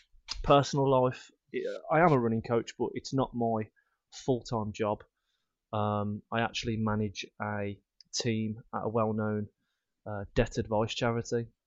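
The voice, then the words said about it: Birmingham English accent. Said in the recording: “accent, which Rob kindly reminded me is a Peaky Blinders accent ... from Birmingham”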